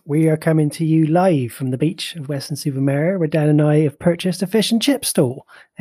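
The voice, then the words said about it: Put-on Bristol Somerset accent. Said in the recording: “this, of course, is me doing my very best Bristol Somerset accent,”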